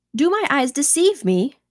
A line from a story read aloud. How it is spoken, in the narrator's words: cried I